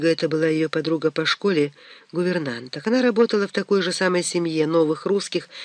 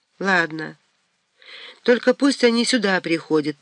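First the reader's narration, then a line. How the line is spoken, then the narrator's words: Heavy sigh. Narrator (Russian): тяжко вздохнул Митя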